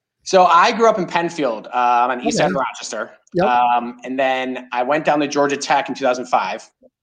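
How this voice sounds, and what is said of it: Western New York accent. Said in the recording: “I'm a Rochester kid, as you can probably hear and hear that Western New York accent. A lot of people are like, you're not from the South.”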